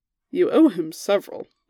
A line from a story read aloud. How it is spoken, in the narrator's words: Lancelot pointed out, amused